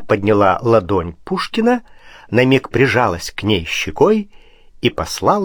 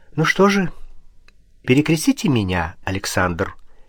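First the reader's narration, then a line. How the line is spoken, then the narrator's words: Quiet. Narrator (Russian): тихо сказала она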